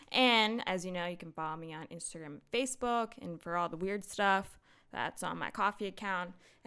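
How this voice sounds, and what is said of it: Out of breath, breathless speech. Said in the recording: “God, I'm out of breath.”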